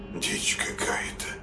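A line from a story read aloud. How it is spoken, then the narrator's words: Puzzled mutter. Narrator (Russian): пробормотал он озадаченно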